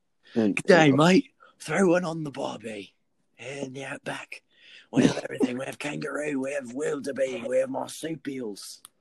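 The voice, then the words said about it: Put-on Australian accent. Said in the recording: “your Australian impersonation ... That was pretty good, man. That was very Mad Max.”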